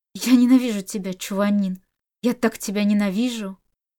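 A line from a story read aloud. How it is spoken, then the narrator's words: Hoarse, strained voice. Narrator (Russian): Его голос звучал хрипло и надсадно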